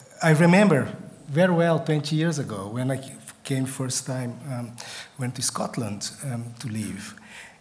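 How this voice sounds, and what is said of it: Non-native English accent. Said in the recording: “as you may have guessed from my accent, English is not my first language”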